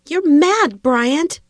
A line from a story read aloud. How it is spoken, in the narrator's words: Dana yelled